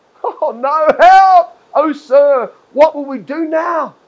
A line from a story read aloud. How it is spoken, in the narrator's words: the young man cried to Elisha